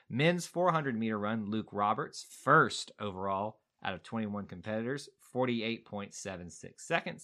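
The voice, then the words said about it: Southern American accent. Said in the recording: “That is just my good old Southern accent coming out of here.”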